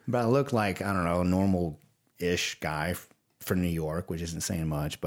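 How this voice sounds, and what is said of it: Rural Southern American accent. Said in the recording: “I sound like a redneck”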